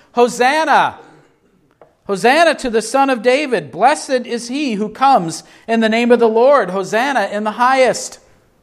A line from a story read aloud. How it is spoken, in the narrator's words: the crowds were shouting